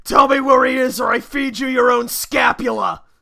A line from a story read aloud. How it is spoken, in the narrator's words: yell